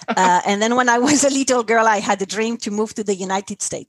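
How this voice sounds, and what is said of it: French accent in English. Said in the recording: “first I'm French, so probably people notice an accent.”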